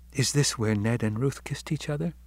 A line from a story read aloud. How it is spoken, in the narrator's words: she whispered breathlessly